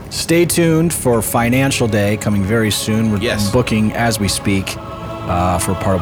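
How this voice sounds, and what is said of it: Usual voice. Nothing is said of it.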